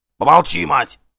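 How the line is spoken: Fierce bark. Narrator (Russian): свирепо рявкнул Гримкель

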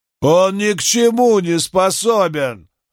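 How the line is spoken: Yelling. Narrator (Russian): орал Чарльз на свою жену

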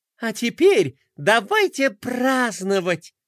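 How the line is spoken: Joyful shout. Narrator (Russian): радостно закричала принцесса

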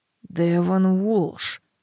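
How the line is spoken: Strained mutter. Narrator (Russian): бормочу я, выжимая штангу

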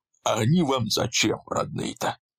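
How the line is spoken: Cold, unpleasant voice. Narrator (Russian): Мужчина неприятным голосом холодно произнес

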